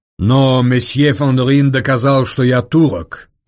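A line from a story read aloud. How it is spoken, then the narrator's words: Mocking reply. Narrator (Russian): насмешливо ответил Девре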